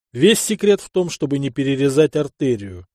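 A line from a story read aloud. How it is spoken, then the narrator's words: Loud. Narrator (Russian): громко произнес я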